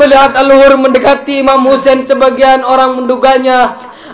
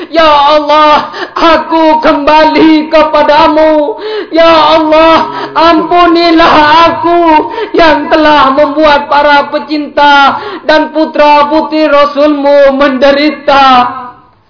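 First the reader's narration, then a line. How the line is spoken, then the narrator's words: Exclaiming. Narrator (Indonesian): sambil berseru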